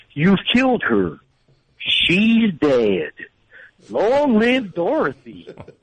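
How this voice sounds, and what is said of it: Impression of Wizard of Oz character. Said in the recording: “I do the guy from The Wizard of Oz. I think it's spot on. Everyone hates it. ... doing an impression from The Wizard of Oz”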